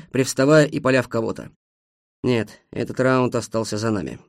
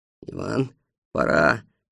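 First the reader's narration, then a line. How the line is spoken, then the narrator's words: Quiet. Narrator (Russian): негромко сказал Бобриков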